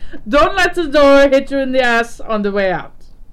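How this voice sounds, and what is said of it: Put-on German accent, possibly poor. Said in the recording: “I don't know if that's a good German accent. Probably not.”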